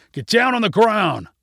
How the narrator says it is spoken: multiple people shouted

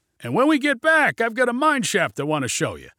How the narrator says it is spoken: shouted Junie, his sly grin reappearing

